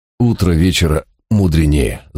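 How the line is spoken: Folksy announcement, host. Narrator (Russian): простонародной мудростью объявил хозяин дома

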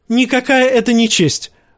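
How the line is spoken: Shrieking. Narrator (Russian): взвизгнул Джоффри

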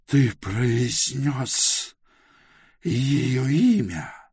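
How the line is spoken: Hoarse whisper. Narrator (Russian): хрипло прошептала она

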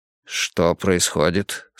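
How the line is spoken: Plain. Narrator (Russian): спросил Эрик

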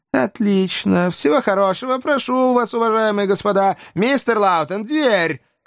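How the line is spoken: Shout. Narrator (Russian): крикнул маленький поверенный

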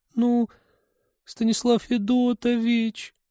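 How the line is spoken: Repentant whine. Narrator (Russian): покаянно заскулила она

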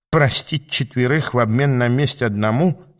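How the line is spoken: Snorting hmph. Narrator (Russian): хмыкнул Иштван

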